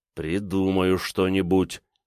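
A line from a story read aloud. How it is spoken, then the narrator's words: Through gritted teeth. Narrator (Russian): сквозь зубы сказал Александр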